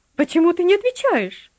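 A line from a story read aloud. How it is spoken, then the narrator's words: Shrill shriek. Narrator (Russian): взвизгнула она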